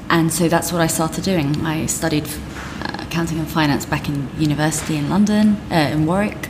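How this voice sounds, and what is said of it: Very strong accent. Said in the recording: “So I'm actually Iranian, but I was brought up in London ... Hence the ridiculously strong accent”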